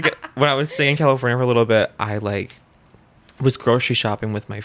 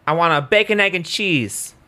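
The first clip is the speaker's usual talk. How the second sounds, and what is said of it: Poor attempt at New York accent. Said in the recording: “Try a New York accent... Bad... Still sound like a man... It's embarrassing.”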